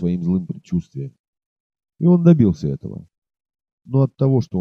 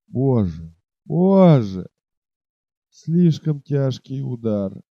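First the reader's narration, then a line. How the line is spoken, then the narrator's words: Loud moan. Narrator (Russian): едва держась на ногах, шатаясь, он простонал громко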